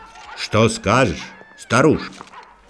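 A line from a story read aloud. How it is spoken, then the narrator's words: Plain. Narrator (Russian): спросил король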